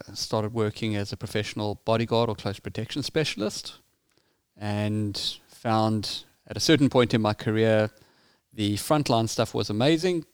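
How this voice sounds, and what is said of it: South African accent. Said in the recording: “as you can hear from my accent, I grew up in South Africa.”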